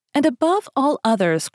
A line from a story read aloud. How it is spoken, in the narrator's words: cried D'Artagnan, as if carried away by his enthusiasm